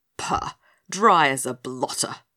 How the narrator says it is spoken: spluttered the red-faced ruler, gritting his teeth with disgust

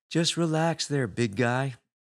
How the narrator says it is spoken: I said in my most soothing hypno voice

